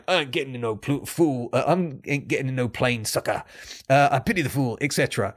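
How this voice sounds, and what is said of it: Imitates another person's voice. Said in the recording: “that's my attempt at pr- impersonating BA”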